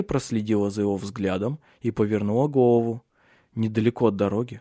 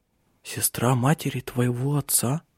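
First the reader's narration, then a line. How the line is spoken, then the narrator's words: Superstitious whisper. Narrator (Russian): Прошептала она суеверно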